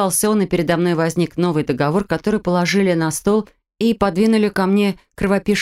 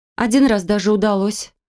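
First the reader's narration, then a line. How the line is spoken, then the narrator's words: Proud exclamation. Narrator (Russian): с гордостью воскликнула я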